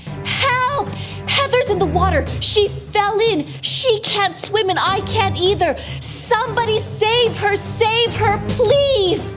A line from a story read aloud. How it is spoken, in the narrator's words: everyone heard Carter scream